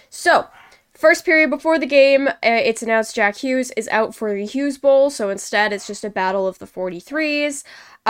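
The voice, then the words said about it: Sick, croaky froggy voice. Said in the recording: “Apologies if I sound like this. ... a bit sick this week. So if I sound like Kermit the Frog a little”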